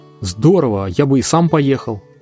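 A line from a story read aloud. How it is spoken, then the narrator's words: Exclaiming. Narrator (Russian): мой брат Ларри воскликнул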